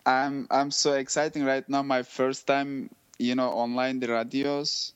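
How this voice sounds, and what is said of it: Non-native English accent. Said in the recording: “my English is not perfect, and my accent is not good”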